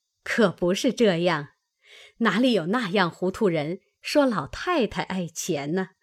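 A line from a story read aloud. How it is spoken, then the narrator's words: Laughing. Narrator (Chinese): 薛姨妈笑道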